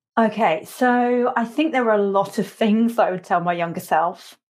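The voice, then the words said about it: English accent. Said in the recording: “I love your accent ... you were from England ... It's nice to hear a different accent.”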